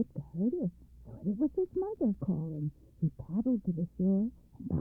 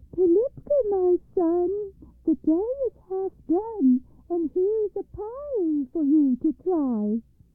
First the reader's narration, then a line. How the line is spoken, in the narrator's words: Baba Yaga called in a thin little voice